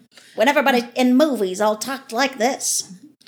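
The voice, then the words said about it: Put-on mid-Atlantic accent, nasal. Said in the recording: “The mid-Atlantic accent, see? ... That kind of like Katharine Hepburn. ... That's more the mid-Atlantic accent. Nose ... accent.”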